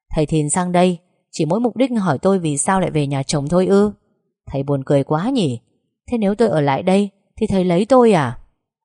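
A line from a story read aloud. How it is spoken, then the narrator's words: Sneering sarcasm. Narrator (Vietnamese): nhếch mép mỉa mai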